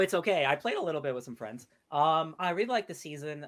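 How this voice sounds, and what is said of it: Usual voice. Nothing is said of it.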